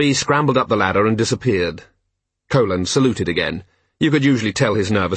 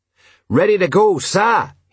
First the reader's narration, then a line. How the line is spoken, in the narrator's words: he shouted